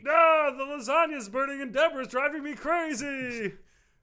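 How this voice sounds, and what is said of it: Kermit-the-Frog-like imitated voice. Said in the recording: “I'm just doing it with my voice ... really does sound like Kermit the Frog”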